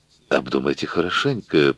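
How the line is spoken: Advising. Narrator (Russian): посоветовал Эшли

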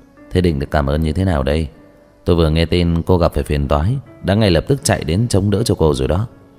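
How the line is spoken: Said laughing. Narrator (Vietnamese): cười nói

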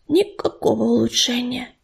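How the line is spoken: Whisper from behind, swallow. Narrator (Russian): шепнула за его спиной ласточка

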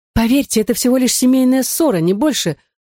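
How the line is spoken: Pleading. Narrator (Russian): взмолилась Мари-Жозеф

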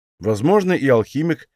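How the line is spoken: Wry snort. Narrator (Russian): хмыкнул я

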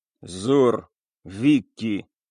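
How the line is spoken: Grudging grumble. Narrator (Russian): буркнул, как выдавил из себя пират

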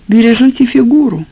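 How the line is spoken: Wistful sigh, woman. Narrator (Russian): вздохнула, как о чем-то несбыточном, хозяйка

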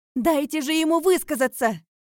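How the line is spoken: Shouting out. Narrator (Russian): выкрикнула я

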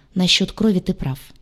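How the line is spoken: Muttering. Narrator (Russian): пробормотал док

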